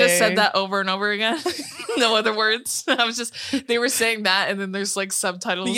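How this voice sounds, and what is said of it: Usual voice. Nothing is said of it.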